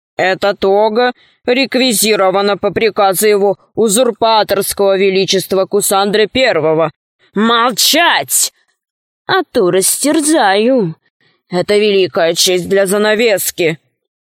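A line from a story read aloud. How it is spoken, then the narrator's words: Wolf's growl. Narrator (Russian): Волк зарычал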